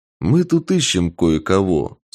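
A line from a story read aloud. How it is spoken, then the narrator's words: Calm. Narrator (Russian): спокойно сказал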